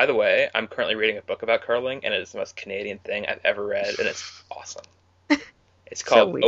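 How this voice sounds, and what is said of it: Usual voice. Nothing is said of it.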